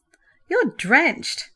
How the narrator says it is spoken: Peter laughed

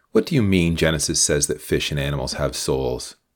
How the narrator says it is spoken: Mary asked in an amused voice

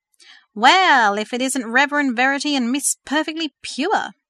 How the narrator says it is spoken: Hank laughed loudly

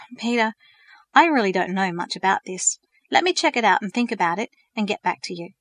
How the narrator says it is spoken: Sighing, Verity responded

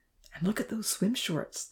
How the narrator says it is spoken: the professor whispered

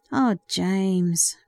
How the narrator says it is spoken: Peter said sadly

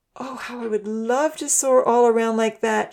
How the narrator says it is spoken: she sighed happily

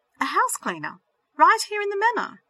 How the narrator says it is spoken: she exclaimed to herself

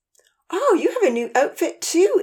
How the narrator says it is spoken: Amy exclaimed

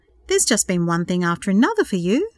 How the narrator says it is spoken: exclaimed

